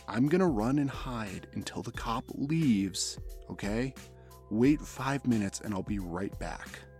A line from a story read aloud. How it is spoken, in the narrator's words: whispered